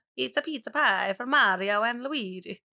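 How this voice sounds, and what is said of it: Put-on exaggerated Italian accent. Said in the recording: “I feel like I just did, like, a Mario ... The only time I can do an Italian accent is if I'm, like, thinking about pizza”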